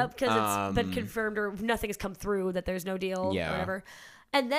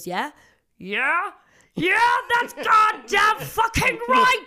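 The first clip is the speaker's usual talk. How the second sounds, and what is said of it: Impression of Logan Roy. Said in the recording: “It's a great impression.”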